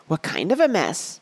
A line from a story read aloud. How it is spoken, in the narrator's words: Betsy asked eagerly